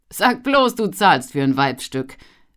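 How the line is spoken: Asked laughing. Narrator (German): fragte Rudi lachend

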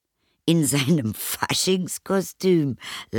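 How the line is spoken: Mother laughing. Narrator (German): lachte die Mutter

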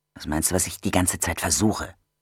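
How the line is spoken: Hissing. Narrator (German): zischte

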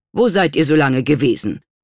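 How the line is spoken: Stern question. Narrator (German): fragte streng

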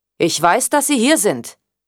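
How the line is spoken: Loud. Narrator (German): sagte er laut

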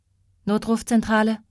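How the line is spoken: Sleepy detached monotone. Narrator (German): sagte sie monoton, mit der unbeteiligten Stimme, die man ihr auf dem Amt beigebracht hatte

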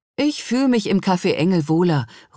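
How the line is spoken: Calling across. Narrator (German): ruft hinüber

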